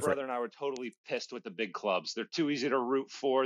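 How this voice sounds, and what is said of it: American accent. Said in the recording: “that's a fine accent you have there”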